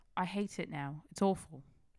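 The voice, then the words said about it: Put-on British accent. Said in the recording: “in a British accent... He sounds like a British woman, though. You guys sound like a British dude.”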